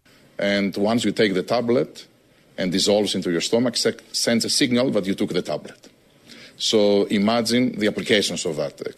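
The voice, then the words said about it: Very thick foreign accent. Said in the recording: “I like when my tyrants sound like Bond villains ... there's a very thick accent”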